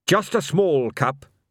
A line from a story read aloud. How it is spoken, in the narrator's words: said Carrot firmly